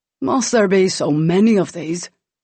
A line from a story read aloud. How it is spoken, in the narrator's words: She laughed